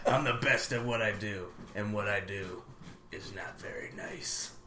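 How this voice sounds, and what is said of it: Wolverine impression. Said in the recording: “good Wolverine impersonation ... Oh, that's good. It gave me goosebumps almost.”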